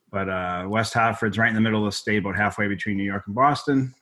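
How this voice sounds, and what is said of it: Slight Boston accent. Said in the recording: “that's not a Connecticut accent. I'm originally from uh, Boston, Massachusetts. So I have ... a bit of an accent.”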